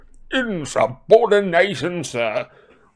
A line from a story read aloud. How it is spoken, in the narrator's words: roared a corpulent red-nosed wizard